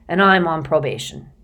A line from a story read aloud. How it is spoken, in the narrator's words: he mumbled